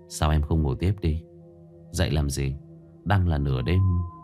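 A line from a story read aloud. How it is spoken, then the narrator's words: Soft murmur. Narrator (Vietnamese): Tôi giọng thủ thỉ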